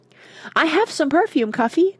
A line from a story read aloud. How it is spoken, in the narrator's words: cried Mona, happy to make a sacrifice